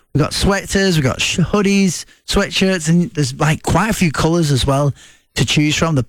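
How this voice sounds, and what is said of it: Speaker's own noticeable accent. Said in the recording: “Sorry about my accent”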